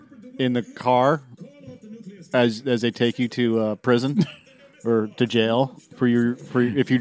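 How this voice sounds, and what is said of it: Worn-out, strained voice. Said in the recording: “my voice is shot today.”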